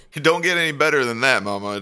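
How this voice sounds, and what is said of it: Elvis impersonation voice. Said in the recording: “an impersonation of a human music legend? ... singing with a Elvis tribute artist”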